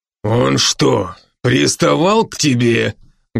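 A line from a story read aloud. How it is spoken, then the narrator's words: Menacing. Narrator (Russian): грозно спросил Брок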